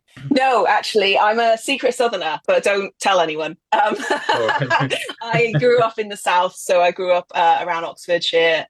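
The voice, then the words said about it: Yorkshire accent. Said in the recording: “I can tell by your accent, you're not from the Black Country ... I'm based in Yorkshire ... I've been up in Yorkshire for about 15 years now, so I sound like one of them”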